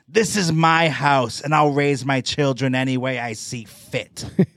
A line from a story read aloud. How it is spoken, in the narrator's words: Jose snapped